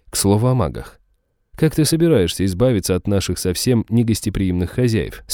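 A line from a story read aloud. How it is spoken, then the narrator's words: Plain. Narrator (Russian): спросил я Изабеллу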